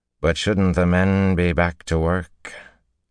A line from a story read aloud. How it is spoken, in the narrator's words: He slurred his words worse than Seleucia, almost to unintelligibility